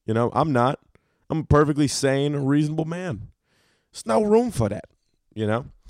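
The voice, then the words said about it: Slightly rough, strained voice. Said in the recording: “My voice is a little fucked.”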